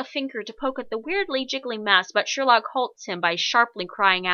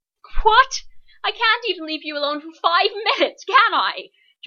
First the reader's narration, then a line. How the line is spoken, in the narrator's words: John all but shrieks